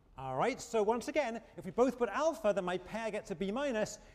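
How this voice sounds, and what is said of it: Speaker's own noticeable accent. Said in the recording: “apologize for this stage of the class is my accent ... There's not much I can do about the accent”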